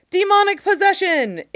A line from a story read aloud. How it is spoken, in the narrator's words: Someone might scream